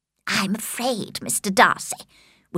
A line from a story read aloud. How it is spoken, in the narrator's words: whispered Miss Bingley